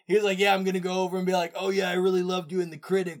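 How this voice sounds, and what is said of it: Jaded, cynical imitated voice. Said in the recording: “It was in the tone of voice though ... he was like very jaded and cynical about it”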